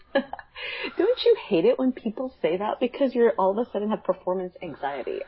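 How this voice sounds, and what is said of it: Stuffy, congested voice. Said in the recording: “I'm a little stuffed up, so pardon my voice”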